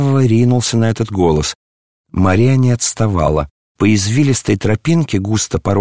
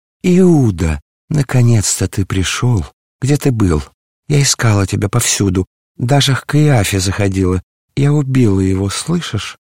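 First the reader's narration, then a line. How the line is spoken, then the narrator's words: Confiding whisper. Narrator (Russian): зашептала Юдифь доверительно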